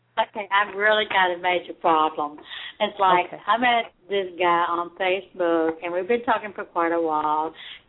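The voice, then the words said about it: Kentucky drawl and twang. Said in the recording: “drawl in your voice, that good old Kentucky twang”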